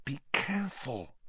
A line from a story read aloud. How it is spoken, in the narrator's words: hissed Hermione